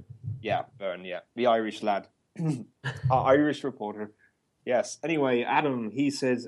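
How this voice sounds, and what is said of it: Put-on Irish accent. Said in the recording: “Sorry, I stopped talking in Irish accent.”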